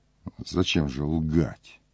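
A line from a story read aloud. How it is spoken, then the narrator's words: Quiet question. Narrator (Russian): спросил тихо Пилат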